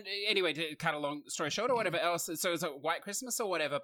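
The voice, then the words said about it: Australian accent. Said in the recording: “I say it with an Australian accent”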